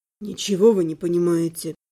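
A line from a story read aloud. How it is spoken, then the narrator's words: Heavy sigh. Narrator (Russian): Тяжело вздохнул Александр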